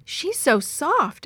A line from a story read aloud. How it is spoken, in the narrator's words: exclaimed Yo-Yo